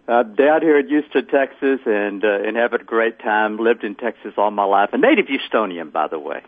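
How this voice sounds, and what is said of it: Texas accent. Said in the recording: “if anybody recognizes this Texas accent, there's a very good reason for that.”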